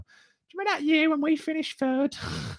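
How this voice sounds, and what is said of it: Old person's voice. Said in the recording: “I'm putting on my old voice now.”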